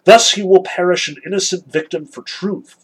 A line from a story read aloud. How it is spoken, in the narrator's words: exclaimed Kolya